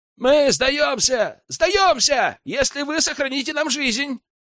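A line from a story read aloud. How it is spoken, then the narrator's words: Shouted out. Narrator (Russian): выкрикнул популяр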